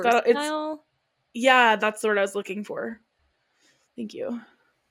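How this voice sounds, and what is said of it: Sarcastic tone. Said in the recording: “Did I say that sarcastically? ... Yeah.”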